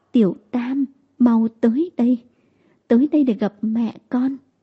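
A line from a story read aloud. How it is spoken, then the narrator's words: Trembling voice. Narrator (Vietnamese): giọng nói run run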